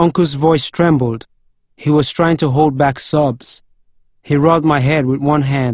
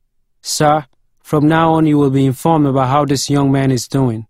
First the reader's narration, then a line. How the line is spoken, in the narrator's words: Leslie said